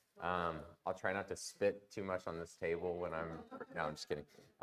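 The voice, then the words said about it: Sick, congested voice. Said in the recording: “excuse my voice ... I've been sick for a couple days ... It's just cough, congestion kind of thing ... seem a little low in energy”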